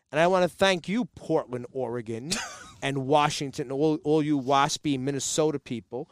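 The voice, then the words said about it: Jersey City accent. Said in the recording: “The Jersey City accent is dying. It's dead. ... Me and my cousins are the last one that have it.”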